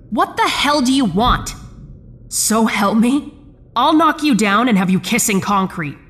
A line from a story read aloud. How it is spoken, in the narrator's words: I shouted